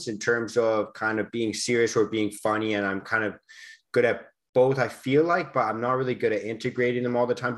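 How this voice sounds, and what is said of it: Canadian accent. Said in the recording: “your accent just sounds cooler ... everything just maybe sounds cooler with that uh, Canadian accent that you've got”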